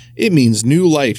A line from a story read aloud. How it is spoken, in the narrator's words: she said